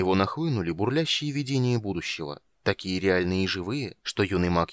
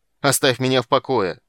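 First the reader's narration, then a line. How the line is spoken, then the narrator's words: Struggling shout. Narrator (Russian): закричал Полин, вырываясь из рук гнома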